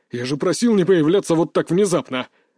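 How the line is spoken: Barking shout. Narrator (Russian): рявкнул Руслан

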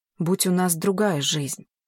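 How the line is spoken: Soft, gentle. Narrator (Russian): мягко произнес он

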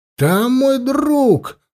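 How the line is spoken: Shouting. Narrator (Russian): закричал Анил

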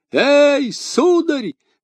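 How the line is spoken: Shouted. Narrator (Russian): закричал он

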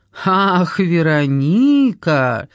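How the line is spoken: Strained laugh. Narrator (Russian): Гай натужно рассмеялся

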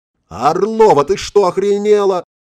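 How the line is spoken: Yelling. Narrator (Russian): заорал Игорь

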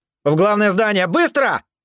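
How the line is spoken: Shouted. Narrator (Russian): крикнул

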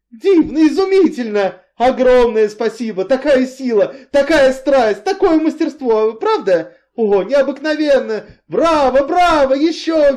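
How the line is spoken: Shrieked. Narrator (Russian): визжал Энси

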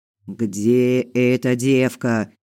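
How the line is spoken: Growl. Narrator (Russian): зарычал один

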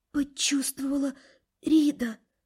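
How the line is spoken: Wheezing whisper. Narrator (Russian): Захрипев так, что испуганно склонился надо мной, все же прошептала

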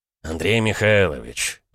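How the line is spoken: Sighing. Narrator (Russian): Волков вздохнул

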